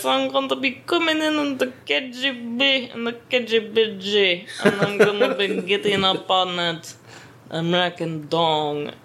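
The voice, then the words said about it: Sexy put-on Russian accent. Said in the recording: “do the sexy Russian voice.”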